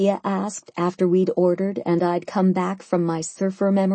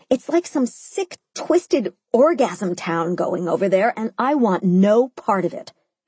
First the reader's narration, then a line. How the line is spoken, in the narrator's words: I said, chewing furiously on my lettuce